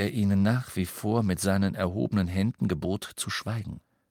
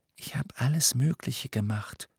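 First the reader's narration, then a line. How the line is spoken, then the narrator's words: Whispered reply. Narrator (German): flüsterte Hermine zurück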